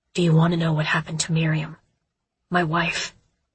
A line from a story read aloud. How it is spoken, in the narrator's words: His voice was hoarse